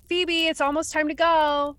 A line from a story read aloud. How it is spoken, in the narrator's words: she heard her mother yell up the stairs